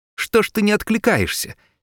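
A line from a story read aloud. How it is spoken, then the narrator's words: Angry young man. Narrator (Russian): сердито сказал ему молоденький лейтенант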